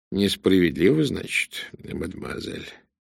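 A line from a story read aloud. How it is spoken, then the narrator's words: Gentle question. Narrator (Russian): мягко спросил Пуаро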